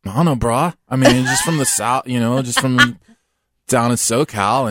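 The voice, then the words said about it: Bad put-on Californian surfer accent. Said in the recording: “like that surfer accent ... Wow, that was terrible. They don't sound anything like that.”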